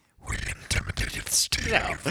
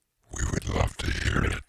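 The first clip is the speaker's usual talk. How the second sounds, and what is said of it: Spooky, scary-sounding voice. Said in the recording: “That's a scary voice. ... Yes, it is.”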